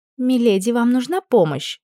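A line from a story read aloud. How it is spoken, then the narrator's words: Worried question. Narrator (Russian): взволнованно поинтересовалась Мирая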